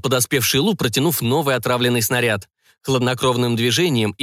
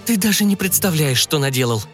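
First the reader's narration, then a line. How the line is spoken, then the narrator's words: Hopeless exhale. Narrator (Russian): обреченно выдохнула Эмили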